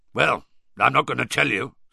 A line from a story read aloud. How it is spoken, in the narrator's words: said Moody gruffly